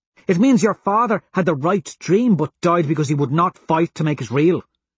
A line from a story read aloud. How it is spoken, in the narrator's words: she says sharply